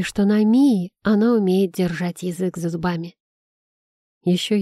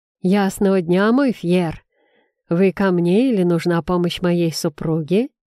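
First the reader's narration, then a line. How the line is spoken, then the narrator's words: Deep bass voice. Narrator (Russian): неожиданно басом произнес блондин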